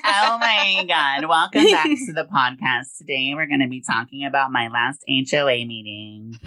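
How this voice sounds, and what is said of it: Put-on stereotyped white girl voice. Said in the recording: “That's my white girl voice.”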